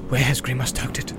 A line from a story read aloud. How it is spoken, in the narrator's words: he muttered under his breath